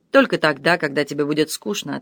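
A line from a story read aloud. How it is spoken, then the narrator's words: Plain. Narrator (Russian): ответил он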